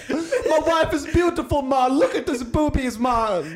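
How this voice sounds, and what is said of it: Poorly done put-on Jamaican accent. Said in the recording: “That was Jamaican. ... I'm really bad at accents.”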